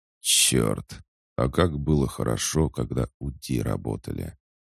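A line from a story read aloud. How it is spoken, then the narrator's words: Colonel's strained muttering. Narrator (Russian): сдавленно пробормотал полковник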